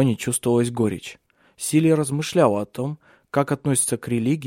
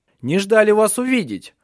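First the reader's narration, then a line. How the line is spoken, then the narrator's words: Shouted. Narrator (Russian): крикнул он им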